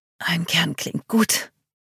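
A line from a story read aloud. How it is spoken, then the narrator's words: Murmured. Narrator (German): murmelte ich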